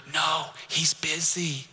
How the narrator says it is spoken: The child whispered

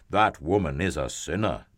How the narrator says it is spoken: they grumbled

